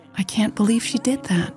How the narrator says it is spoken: Mary said softly

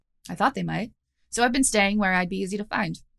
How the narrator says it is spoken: said Kaya

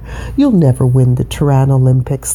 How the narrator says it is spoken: laughed his best friend Hugh

